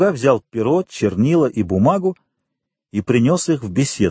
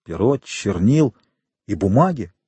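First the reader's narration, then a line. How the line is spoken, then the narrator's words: Muttering. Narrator (Russian): пробормотал Фернан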